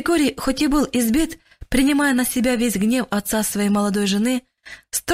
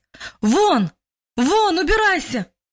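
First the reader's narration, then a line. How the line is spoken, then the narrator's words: Louder shout. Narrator (Russian): уже громче крикнул мужчина во второй раз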